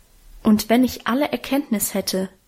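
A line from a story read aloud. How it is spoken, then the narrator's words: Plain. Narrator (German): sagt der Apostel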